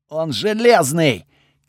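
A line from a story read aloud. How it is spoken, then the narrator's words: Shouted. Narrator (Russian): крикнул Готфред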